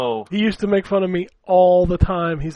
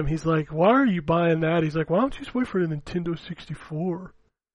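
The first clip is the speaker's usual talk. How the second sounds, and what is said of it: Imitates another person's voice. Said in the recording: “Probably his voice was a little bit higher”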